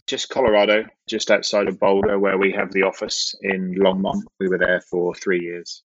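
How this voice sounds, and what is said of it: Southern English accent, no Texas drawl. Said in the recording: “you're not from Houston. You don't have that Texas draw ... I'm still trying to work on the accent ... I'm originally from the United Kingdom in the southern part of the UK”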